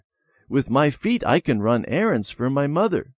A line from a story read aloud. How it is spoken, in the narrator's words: Peter said